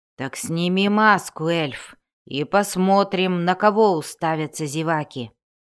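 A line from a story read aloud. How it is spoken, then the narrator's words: Embarrassed growl. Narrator (Russian): прорычал Вульфгар, побагровев от смущения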